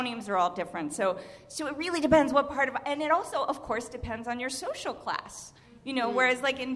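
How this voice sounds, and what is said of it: Usual voice. Nothing is said of it.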